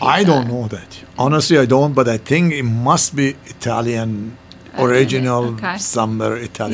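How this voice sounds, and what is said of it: Middle Eastern accent. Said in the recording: “I have a Middle Eastern accent.”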